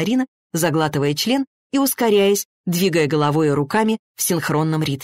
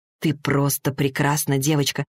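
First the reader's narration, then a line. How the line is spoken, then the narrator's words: Whisper. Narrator (Russian): прошептал Максим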